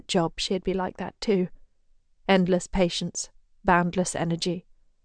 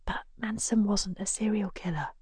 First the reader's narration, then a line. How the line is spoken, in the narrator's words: Shenton whispers